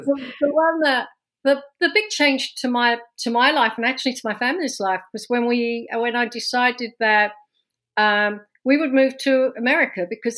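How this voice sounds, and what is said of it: London English accent. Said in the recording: “as you can tell from my from my accent, I was not born and raised in New Jersey. ... this accent's from London, born and raised”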